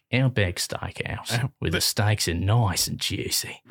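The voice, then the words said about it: Good put-on Australian accent. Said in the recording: “a really good Australian accent.”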